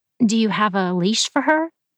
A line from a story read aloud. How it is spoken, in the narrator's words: Reed laughed, but she was only half joking